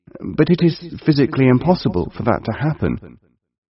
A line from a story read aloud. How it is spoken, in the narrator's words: The poor man gasped and stammered, and all he could say was, rather weakly